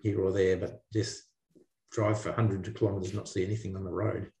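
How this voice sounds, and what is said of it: Australian accent. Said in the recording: “to hear an Australian accent for the first time on the podcast in a long time ever”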